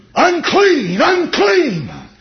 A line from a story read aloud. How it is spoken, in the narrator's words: the leper cried out